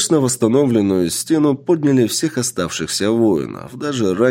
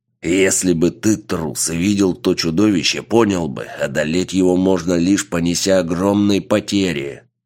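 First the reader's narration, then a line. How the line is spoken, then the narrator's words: Growl of bereaved warrior. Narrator (Russian): прорычал воин, что едва пережил то сражение, потеряв почти всех своих учеников и соратников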